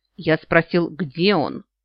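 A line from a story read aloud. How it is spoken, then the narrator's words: Near growl. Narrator (Russian): почти прорычал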